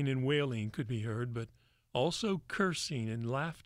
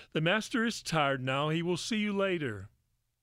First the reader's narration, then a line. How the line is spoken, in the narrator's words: Simon and Judas called out to the crowd